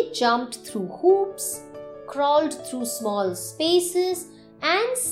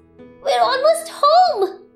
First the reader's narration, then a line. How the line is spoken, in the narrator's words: She squealed